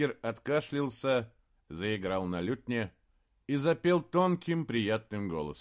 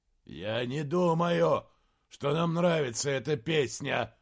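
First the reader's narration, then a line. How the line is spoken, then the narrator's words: Growled. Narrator (Russian): прорычал Гутвульф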